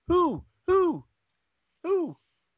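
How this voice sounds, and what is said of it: Imitates an owl's hooting. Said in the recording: “his best owl impression”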